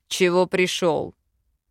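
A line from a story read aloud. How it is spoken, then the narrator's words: Growled. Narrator (Russian): рыкнул Велитар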